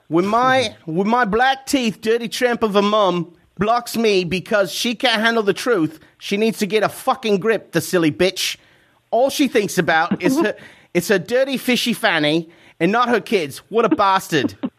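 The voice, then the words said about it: Put-on British accent. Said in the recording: “I'll do my best even to do it in a British accent.”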